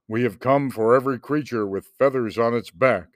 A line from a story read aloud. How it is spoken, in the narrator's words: the terrible things thundered